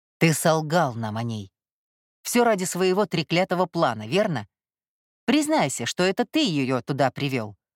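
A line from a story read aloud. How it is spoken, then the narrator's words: Distant bark. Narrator (Russian): рявкнул Кай где-то в отдалении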